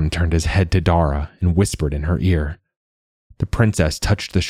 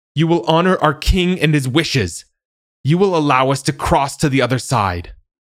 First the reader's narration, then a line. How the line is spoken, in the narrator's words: In a loud voice, yelled